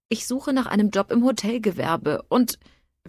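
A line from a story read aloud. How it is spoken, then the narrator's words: Increasingly shrill, insistent whining. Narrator (German): rief die Jammerstimme immer schriller und beharrlicher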